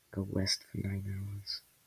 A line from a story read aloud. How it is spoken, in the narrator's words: muttered Luffy